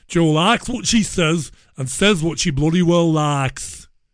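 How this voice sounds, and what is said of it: Poor put-on Yorkshire accent. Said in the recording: “That's a dreadful attempt at a Yorkshire accent, e-by gum.”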